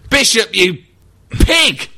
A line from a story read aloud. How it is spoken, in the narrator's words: shouted